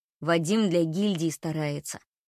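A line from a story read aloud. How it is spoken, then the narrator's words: Darkened voice. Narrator (Russian): помрачневшим голосом говорит Марк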